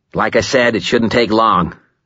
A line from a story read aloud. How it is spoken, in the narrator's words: Kincaid was saying in a bluff, heavy, cheerful voice marked with the harder, shorter vowels of a Chicago accent